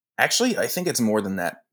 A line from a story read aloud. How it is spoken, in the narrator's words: Nick said